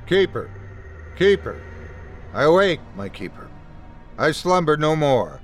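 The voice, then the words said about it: Metallic monotone character voice. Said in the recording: “It spoke in a metallic monotone.”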